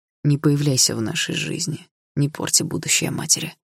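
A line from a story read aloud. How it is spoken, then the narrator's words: Quiet, threatening. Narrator (Russian): ответил он тихо, но с угрозой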